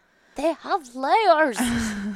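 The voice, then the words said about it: Bad Shrek cartoon ogre voice. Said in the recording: “my Shrek impression ... it was bad”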